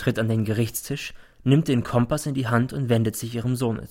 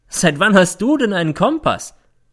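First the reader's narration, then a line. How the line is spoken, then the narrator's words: Mocking. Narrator (German): fragt sie, und es klingt wie Hohn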